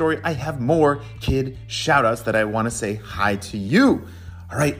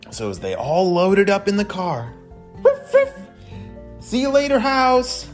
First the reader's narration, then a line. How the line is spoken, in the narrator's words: they shouted as they rode off